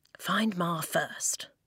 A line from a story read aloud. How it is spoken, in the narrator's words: he murmured